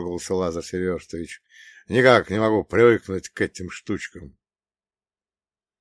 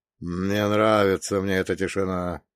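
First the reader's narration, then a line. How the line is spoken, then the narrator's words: Nervous muttering. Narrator (Russian): пробормотал Фролов, нервно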